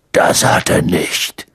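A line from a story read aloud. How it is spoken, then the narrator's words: Growling. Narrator (German): knurrte er Hermine an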